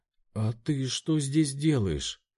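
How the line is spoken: Forced out, bewildered. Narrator (Russian): Только и сумела она выдавить из себя, так и не придя к какому-то логическому умозаключению

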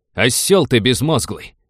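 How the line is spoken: Barking snap. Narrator (Russian): рявкнул на него Роджер

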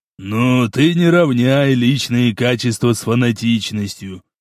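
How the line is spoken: Wry grunt. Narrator (Russian): хмыкнул Кастет

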